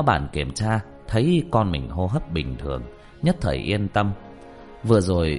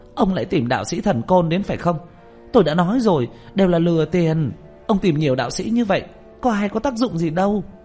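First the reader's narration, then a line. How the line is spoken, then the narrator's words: Hissing shriek. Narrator (Vietnamese): hướng Lý lão bản rít lên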